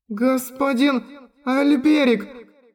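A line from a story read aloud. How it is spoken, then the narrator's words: Strained moan. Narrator (Russian): С трудом простонала она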